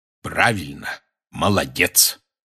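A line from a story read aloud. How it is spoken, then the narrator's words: Solemn. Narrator (Russian): торжественно произнес Хагрид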